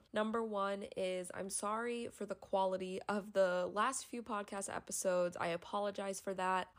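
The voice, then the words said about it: Sick-sounding voice. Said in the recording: “I am sick, so my voice is not going to sound like it usually does”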